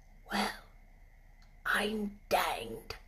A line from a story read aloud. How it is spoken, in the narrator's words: he said as softly as if he were saying something quite different